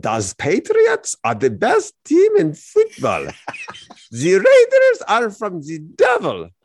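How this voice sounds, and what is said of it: Mock German accent. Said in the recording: “what kind of Hogan's Hero accent was that? ... That's totally Hogan's Heroes ... your Hitler accent”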